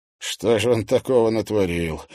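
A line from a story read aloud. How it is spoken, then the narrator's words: Tired question. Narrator (Russian): устало спросил Макарский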